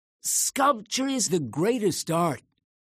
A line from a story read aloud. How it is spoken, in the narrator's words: exclaimed, his voice ringing with emotion